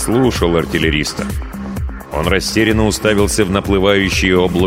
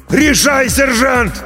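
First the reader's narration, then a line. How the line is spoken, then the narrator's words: Yelled right by the ear. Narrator (Russian): Прямо над ухом заорал артиллерист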